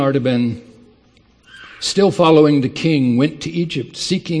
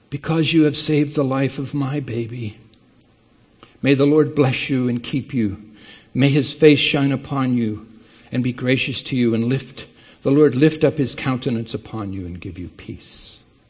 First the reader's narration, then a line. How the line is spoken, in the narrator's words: the voice of the woman, weeping for joy in the shadows behind him, said softly